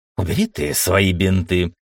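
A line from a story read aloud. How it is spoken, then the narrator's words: Sudden growl. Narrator (Russian): вдруг прорычал Ламбе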